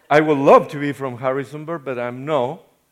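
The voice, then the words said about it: Non-local foreign accent. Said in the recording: “you can notice I am not from Harrisonburg ... the accent is a little weird”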